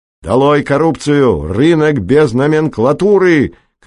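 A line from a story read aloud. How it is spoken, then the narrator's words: Shouting. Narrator (Russian): кричал Пеганов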